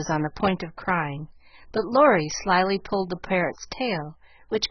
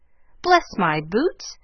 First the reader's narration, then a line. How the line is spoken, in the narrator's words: in such a funny way